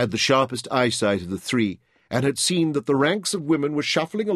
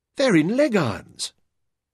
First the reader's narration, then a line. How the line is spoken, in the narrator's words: Jim exclaimed with horror